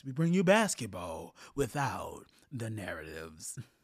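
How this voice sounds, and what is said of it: Moviefone announcer voice impression. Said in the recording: “there's my Mr. Movie Phone voice”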